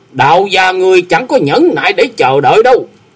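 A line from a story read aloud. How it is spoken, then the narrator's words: Stern sharp shout. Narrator (Vietnamese): Hồng Diệp đạo nhân đanh giọng quát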